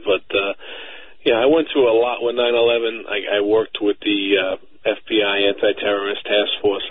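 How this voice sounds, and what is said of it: Slight New York accent. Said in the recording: “I hear the New York in you ... I have the slight twang of an accent”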